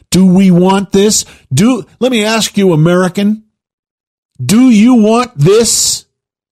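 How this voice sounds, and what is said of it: Raised, angry voice. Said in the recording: “Pardon me for raising my voice, but I hope you're a little angry too.”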